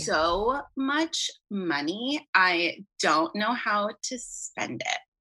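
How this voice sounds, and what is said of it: Slow, soothing Kim Kardashian impression. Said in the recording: “You could fill in doing voiceovers for Kim Kardashian. Have you ever been told that you sound like her? ... It's soothing. It's high ... Maybe if you slow down”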